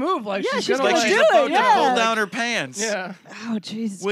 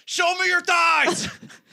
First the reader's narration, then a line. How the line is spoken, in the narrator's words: he yells